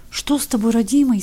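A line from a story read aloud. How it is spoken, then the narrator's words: Old woman's frightened babbling. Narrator (Russian): испуганно лепетала старуха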